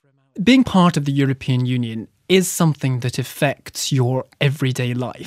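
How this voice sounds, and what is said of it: Lovely accent. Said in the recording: “I hear a lovely accent.”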